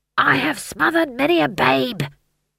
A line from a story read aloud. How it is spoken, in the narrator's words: he hissed